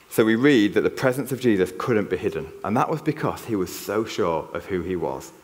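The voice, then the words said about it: Yorkshire northern English accent. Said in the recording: “I cannot hide my Yorkshire accent ... Is that a northern twang I hear in your accent there?”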